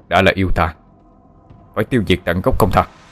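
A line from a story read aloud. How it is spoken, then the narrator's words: Cold young man's reply. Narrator (Vietnamese): Người thanh niên kia lạnh lùng đáp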